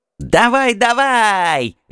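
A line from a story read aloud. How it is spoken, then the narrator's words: Shrieking. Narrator (Russian): визжал Такшака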